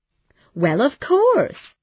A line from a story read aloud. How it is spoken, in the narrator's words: cried Kathy